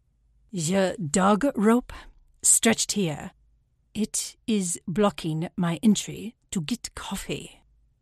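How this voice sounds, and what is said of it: Put-on German accent. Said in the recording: “The accent is German.”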